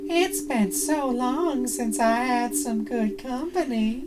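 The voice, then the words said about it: Friendly very old man voice. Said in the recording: “The voice of a very old man ... in a friendly voice”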